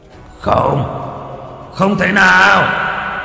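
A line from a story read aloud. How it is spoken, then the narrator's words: Demon roaring scream. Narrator (Vietnamese): Con long quỷ ở bên dưới gầm thét lên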